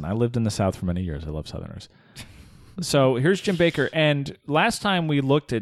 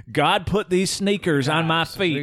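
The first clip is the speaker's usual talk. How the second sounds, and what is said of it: Generic Southern preacher voice. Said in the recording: “I'm just using the generic Southern preacher voice”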